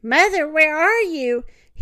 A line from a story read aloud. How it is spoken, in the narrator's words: Bambi shrieked